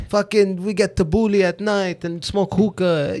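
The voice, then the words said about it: Put-on Lebanese French accent. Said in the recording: “that accent? ... It's Lebanese. ... French.”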